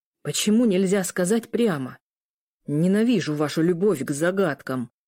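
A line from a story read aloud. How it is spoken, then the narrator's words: Growling. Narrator (Russian): прорычал Ар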